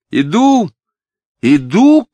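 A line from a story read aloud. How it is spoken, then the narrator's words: Shouting. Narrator (Russian): крикнула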